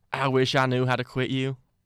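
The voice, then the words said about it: Put-on accent reading a movie quote. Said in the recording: “I'll say it in the accent”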